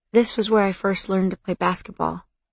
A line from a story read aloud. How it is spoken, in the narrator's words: he said quietly